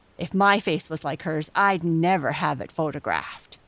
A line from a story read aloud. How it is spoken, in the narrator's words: snapped Jessie